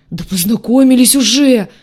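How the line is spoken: Howling cry. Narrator (Russian): взвыл рогатый

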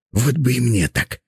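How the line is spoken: Whisper. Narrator (Russian): прошептал он

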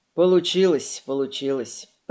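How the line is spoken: Grumbling. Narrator (Russian): проворчал

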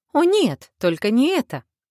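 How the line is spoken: Exclaimed. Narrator (Russian): воскликнула Асэма

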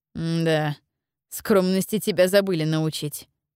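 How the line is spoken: Amused snort. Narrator (Russian): хмыкнул

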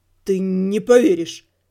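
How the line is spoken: Stammering. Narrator (Russian): запинаясь, ответил Рыжий

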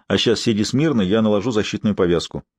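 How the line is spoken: Calm reply. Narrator (Russian): спокойно ответил Максим

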